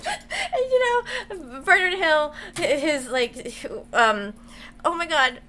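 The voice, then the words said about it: Emotional, sobbing while speaking. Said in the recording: “I'm getting emotional ... you're sobbing”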